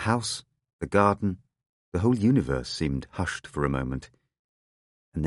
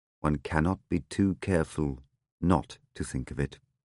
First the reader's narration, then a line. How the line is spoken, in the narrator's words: He said in a low, still voice, and with the deepest and most complete humility I've ever observed in anyone